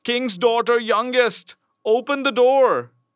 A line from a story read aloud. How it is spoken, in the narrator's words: it knocked at the door and cried